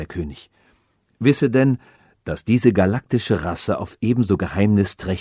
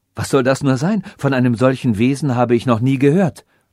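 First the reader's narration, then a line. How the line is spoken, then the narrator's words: Calling out. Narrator (German): rief Ferenc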